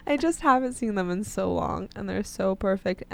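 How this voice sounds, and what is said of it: Emotional, tearful voice. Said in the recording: “it gets me a little emotional thinking about it ... she's literally tearing up.”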